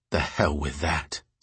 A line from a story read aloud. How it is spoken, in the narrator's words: Sarah said quietly